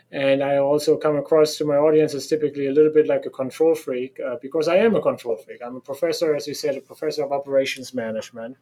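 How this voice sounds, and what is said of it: German accent. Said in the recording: “you can hear from my accent that I sound like a German because I am a German”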